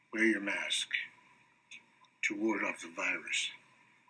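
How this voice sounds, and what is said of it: Bad Batman character voice. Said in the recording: “That is the worst Batman impression I've ever seen before.”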